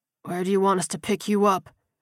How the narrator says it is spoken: Vernon asked hoarsely

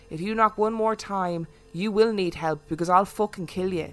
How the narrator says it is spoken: in his thick Dublin accent

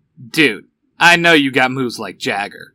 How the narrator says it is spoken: Van says with a light chuckle

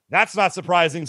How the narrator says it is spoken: says Lady J

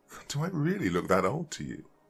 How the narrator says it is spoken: I chuckled nervously, clearing my throat again

